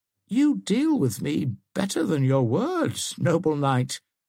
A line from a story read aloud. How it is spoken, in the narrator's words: whimpered forth poor Womba, whose habits of buffoonery were not to be overcome even by the immediate prospect of death